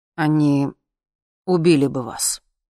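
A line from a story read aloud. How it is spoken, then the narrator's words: Sudden, dull and hostile. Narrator (Russian): вдруг сказал Сережа, и голос его звучал глухо и неприязненно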